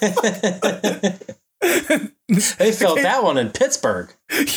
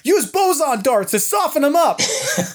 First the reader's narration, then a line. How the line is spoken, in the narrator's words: I just yell out